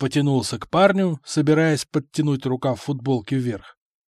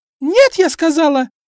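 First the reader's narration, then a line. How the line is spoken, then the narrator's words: Shrieking. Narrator (Russian): Дамочка почему-то начала визжать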